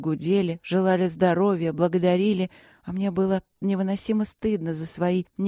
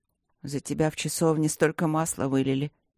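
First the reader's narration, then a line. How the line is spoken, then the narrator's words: Low-voiced explanation. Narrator (Russian): пояснил он вполголоса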